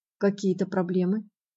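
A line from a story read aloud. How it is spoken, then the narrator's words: Very calm, quiet. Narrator (Russian): говорил Еш очень спокойно, негромко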